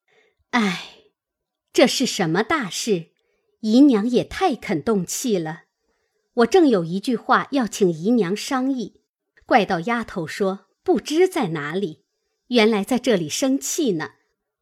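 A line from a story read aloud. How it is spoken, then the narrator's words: Sighing. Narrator (Chinese): 探春便叹气说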